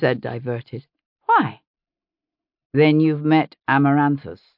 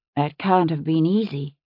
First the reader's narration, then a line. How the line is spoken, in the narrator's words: his sister said softly